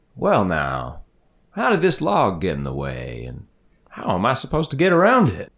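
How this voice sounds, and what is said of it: Character voice with an accent. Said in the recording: “I just love his accent.”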